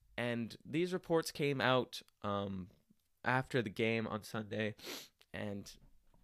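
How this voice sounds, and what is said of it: Usual voice. Nothing is said of it.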